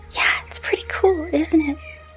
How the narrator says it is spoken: She whispered to him

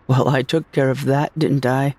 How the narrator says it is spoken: I said with a little laugh

